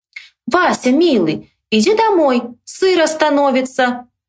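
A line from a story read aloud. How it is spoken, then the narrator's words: Loud. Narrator (Russian): громко сказала сестра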